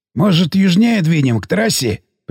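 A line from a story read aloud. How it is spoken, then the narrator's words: Suggesting. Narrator (Russian): предложил Сиплый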